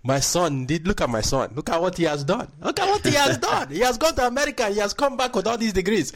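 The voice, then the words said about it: Put-on Nigerian parent accent. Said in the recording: “old accent. ... that was the first accent I ever had”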